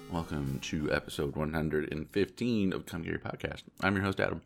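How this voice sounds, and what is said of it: Weird, congested-sounding voice. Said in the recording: “I sound weird. It is because I am currently dealing with either a sinus infection or a cold. And so my voice sounds a little weird.”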